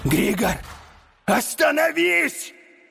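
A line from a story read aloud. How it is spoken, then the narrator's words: Yelling druid. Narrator (Russian): завопил друид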